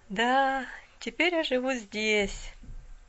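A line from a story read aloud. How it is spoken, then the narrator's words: Sighing girl. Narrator (Russian): вздохнула девушка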